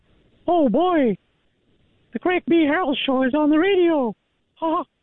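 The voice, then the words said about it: Mickey Mouse cartoon voice. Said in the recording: “An impersonation. ... Mickey Mouse.”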